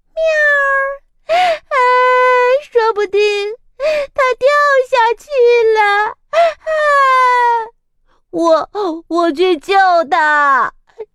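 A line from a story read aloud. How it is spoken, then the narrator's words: Squirrel squeaking. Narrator (Chinese): 吱吱吱吱吱吱， 松鼠吱吱叫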